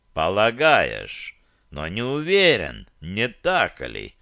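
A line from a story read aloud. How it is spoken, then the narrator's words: Insinuating soft tone. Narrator (Russian): вкрадчиво произнес северянин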